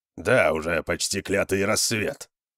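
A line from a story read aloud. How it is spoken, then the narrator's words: Grumbling. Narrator (Russian): проворчал Конан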